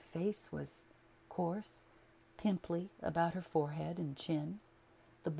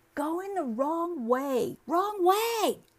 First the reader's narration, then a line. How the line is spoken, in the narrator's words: the girl shouting